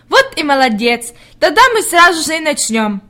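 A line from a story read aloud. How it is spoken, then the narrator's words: Joyful. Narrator (Russian): радостно проговорила она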